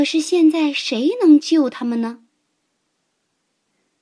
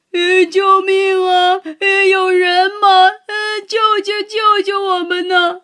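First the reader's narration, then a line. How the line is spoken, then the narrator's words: Wailing cries. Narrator (Chinese): 三个动物嚎啕大哭起来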